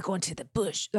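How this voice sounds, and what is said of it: Put-on Australian accent. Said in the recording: “How do you say bush in an Australian accent? ... That Australian accent.”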